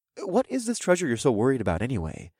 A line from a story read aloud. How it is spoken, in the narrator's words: I asked in a calm voice